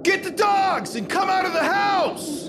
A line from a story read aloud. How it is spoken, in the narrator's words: It was Avery, yelling out to Joe